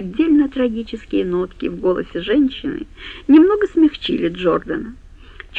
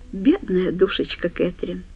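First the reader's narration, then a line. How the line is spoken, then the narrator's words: Dry remark. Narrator (Russian): сухо заметил он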